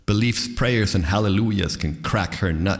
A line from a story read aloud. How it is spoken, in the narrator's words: he added with a sneer or chuckle, not untinged by pathos